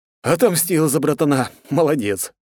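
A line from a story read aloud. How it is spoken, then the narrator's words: Snorting grunt. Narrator (Russian): хмыкнул я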